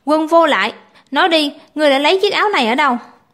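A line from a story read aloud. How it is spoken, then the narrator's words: Loud angry shout. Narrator (Vietnamese): Mã Vinh quát to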